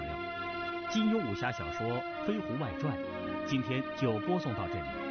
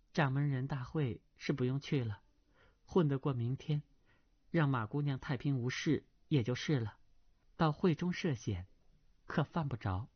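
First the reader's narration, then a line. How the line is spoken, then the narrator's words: Sighing. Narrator (Chinese): 程灵素叹道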